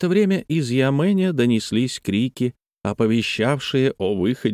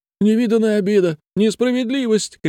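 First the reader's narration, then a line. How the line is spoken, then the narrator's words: Shouting while sobbing. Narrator (Russian): кричала Шунюй, рыдая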